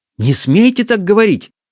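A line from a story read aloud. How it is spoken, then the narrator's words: Girl's heated exclamation. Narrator (Russian): с непонятной запальчивостью воскликнула девушка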